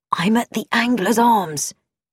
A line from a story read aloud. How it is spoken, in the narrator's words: With a whispered